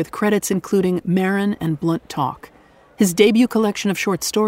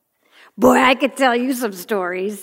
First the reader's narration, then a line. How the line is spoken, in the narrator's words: he chuckled